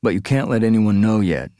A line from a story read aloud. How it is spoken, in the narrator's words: Nikki said